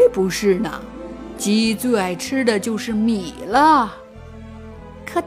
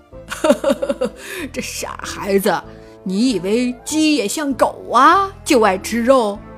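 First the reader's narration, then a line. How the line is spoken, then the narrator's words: Old man laughing. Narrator (Chinese): 爷爷笑了起来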